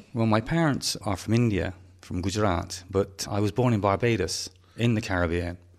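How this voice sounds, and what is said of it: Gloucestershire English accent. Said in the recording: “I have this wonderful Gloucestershire accent that often gets mistaken for somebody from Norfolk”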